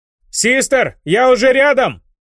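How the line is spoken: Shouting while running. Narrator (Russian): выкрикнул он на бегу

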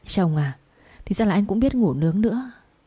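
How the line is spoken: Trembling, quiet. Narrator (Vietnamese): run rẩy nói nhỏ

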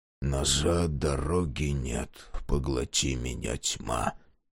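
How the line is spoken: Whisper through teeth. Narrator (Russian): прошептал Мюррей сквозь зубы

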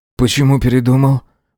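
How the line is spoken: Grumbled mutter. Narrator (Russian): Буркнул, как всегда

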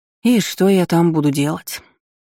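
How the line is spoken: Aunt sighing. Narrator (Russian): вздохнула тетушка

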